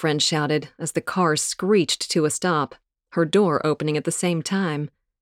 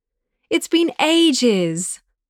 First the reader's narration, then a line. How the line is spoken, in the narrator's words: smiled brightly